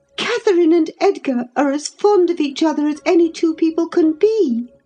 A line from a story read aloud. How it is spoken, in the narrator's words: cried Isabella with sudden vivacity